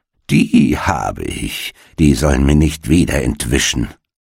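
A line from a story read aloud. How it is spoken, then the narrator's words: Malicious mocking laughter. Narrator (German): lachte sie boshaft und sprach höhnisch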